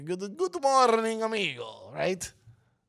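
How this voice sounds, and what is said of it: Unconvincing put-on Italian accent. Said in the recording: “That's not my French accent. That's my Italian accent. ... It did not sound Italian. ... Earlier it sounded like Transylvanian or something.”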